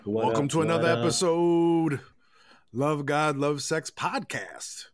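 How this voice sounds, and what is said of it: Put-on twangy accent. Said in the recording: “A little twang on it.”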